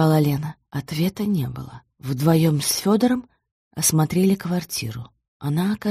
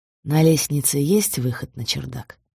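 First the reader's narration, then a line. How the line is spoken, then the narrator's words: Plain. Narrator (Russian): спросил Федор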